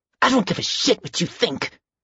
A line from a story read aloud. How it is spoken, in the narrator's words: Stephen said through clenched teeth